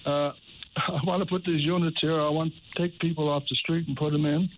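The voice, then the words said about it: Strained, hoarse voice. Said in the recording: “I'm losing my voice here. I'm sorry about that.”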